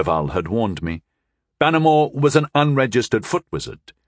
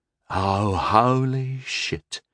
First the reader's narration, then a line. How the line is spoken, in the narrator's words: whispered Bannermore